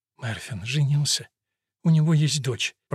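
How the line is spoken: Tearful whisper. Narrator (Russian): прошептала Керис и снова расплакалась

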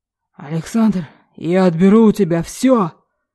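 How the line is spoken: Father barking angrily. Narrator (Russian): рявкнул отец

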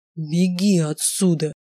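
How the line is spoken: Growl. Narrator (Russian): прорычал он

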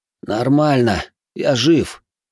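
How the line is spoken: Labored mumble, coughing water. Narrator (Russian): с трудом пробормотал, откашливая воду из легких

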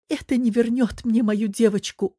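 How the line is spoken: Sobbing. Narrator (Russian): Он всхлипнул

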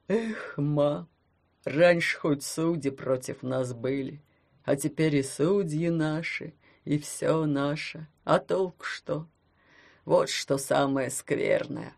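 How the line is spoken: Dejected deep voice. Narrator (Russian): Удрученно пробасил он

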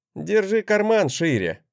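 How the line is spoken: Grumble. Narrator (Russian): проворчал я

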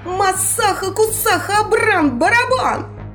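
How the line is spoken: Sharp cry. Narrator (Russian): выкрикнула она

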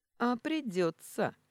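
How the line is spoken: Sultry laugh. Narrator (Russian): Орлов сексуально засмеялся и выдал

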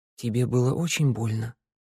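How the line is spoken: Whisper. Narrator (Russian): шепотом проговорила Санда

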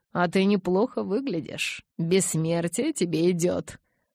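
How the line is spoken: Chuckling. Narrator (Russian): хохотнул он

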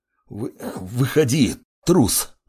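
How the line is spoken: Breathless mutter. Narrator (Russian): задыхаясь, бормотал

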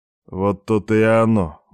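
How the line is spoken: Gloomy mutter under breath. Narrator (Russian): мрачно буркнул себе под нос Алексеев

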